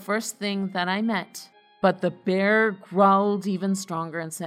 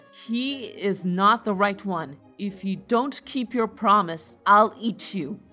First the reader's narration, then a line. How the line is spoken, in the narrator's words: the bear began to growl loudly and said